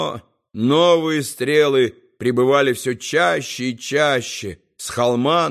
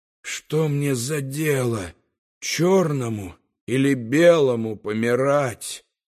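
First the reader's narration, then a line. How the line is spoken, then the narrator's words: Growled. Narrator (Russian): прорычал Арцруни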